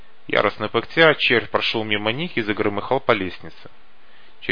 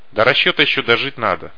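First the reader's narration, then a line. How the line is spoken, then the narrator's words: Scoffing snort. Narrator (Russian): хмыкнул Факер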